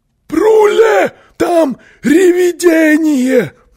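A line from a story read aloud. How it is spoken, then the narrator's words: Frightened yell. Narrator (Russian): завопил он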